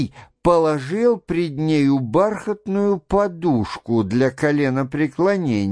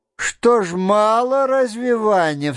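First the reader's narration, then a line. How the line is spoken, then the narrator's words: Cried out. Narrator (Russian): вскрикнула она, увидав его гримасу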